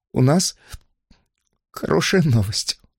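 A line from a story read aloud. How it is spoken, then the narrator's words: Sobbing woman. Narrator (Russian): сказала она, всхлипывая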